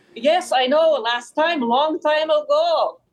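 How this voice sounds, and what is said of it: Grandma character voice with accent. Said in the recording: “a snippet of Grandma Potato? ... like the accent”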